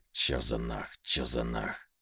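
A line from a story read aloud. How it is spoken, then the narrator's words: Beast growling. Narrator (Russian): рычал зверь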